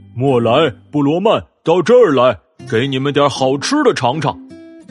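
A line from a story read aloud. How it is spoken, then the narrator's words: Shouting. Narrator (Chinese): 那只大母熊 叫喊道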